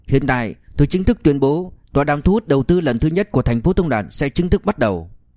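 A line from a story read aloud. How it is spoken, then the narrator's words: Loud announcement. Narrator (Vietnamese): Liêu Kinh Vũ lớn tiếng tuyên bố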